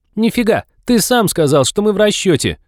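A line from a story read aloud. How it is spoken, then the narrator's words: Triumphant squeal. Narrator (Russian): Триумфально взвизгнула Молли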